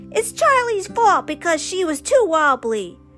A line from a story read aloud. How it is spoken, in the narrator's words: Theo yelled